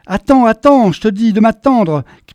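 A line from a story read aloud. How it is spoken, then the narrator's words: Shouting while trotting fast. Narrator (French): cria la menou en trottinant à sa suite à toute vitesse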